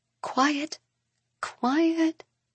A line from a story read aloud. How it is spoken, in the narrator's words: she murmurs